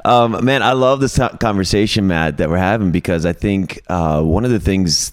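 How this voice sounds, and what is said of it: Extra deep low voice. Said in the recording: “I'm extra like deep this morning ... it's kind of early ... sounding good though ... my radio voice going on ... I just sound this way”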